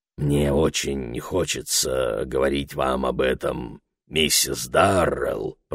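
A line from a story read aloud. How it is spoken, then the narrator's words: Grumbled. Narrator (Russian): пробурчал он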